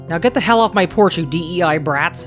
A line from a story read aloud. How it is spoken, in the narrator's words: Doug snarled